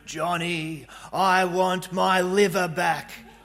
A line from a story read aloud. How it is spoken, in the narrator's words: a zombie who groaned